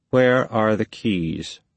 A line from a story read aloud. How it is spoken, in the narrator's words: he asked